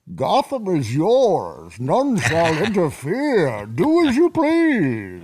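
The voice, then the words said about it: Imitates the movie villain Bane's voice. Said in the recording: “That was my Bane impression.”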